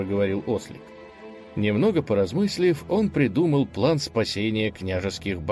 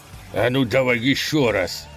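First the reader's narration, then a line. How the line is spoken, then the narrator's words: Leader growled. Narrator (Russian): прорычал главарь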